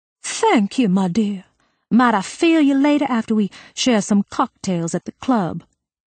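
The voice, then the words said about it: Imitates Thurston Howell's voice. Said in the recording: “went for a Thurston Howell.”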